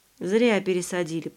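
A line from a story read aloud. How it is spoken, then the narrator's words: Grumbling. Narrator (Russian): проворчал Ваня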